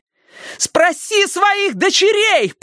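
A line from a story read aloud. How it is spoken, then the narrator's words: Shouting while struggling in scuffle. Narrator (Russian): прокричала Робин среди летающих туда-сюда кулаков и локтей, стараясь высвободиться из крепкой хватки Эйнджел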